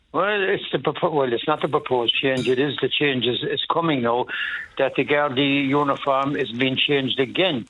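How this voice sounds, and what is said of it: Cork Irish accent. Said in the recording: “you were in Cork, obviously, with that accent.”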